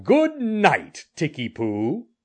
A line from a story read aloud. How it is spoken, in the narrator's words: he laughed and called